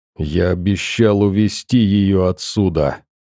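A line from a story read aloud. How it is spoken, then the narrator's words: Hissing. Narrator (Russian): прошипел сталкер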